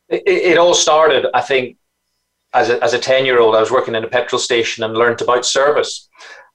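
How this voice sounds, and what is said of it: Northern Irish accent. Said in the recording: “as you can probably tell from my accent, I'm from Northern Ireland. I was brought up in Belfast.”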